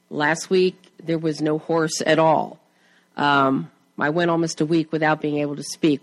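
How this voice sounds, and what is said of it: Slightly hoarse voice. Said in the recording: “as you can tell, I'm still slightly hoarse”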